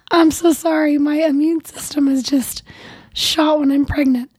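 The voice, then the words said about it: Raspy, hoarse, mostly lost voice. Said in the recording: “I feel better than I sound... I lost my voice a week ago, and we're still struggling... the raspy voice”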